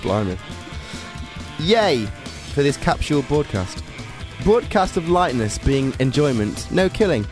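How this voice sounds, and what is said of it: Attempted Scouse accent. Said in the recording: “have a go at Scouse”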